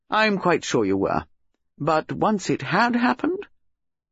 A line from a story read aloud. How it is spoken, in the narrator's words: Sir Henry said kindly